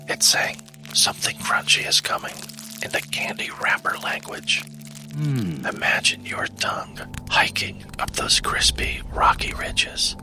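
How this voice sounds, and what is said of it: Whispering. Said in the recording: “this whispering thing”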